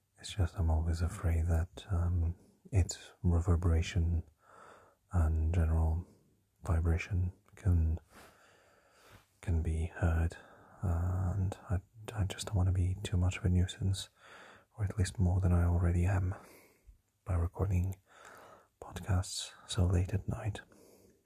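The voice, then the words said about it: Low, deep whispered chest voice. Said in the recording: “this is my radio voice, and I'm still whispering ... this is my low, deep chest voice”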